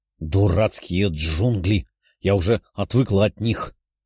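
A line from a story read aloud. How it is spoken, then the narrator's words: Grumbling after stumbling. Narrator (Russian): ворчала Даша, что едва не споткнулась о выпирающие корни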